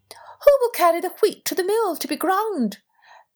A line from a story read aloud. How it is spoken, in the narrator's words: Then she called out